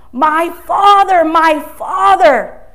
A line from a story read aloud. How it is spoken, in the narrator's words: Elisha, the student, saw this and cried out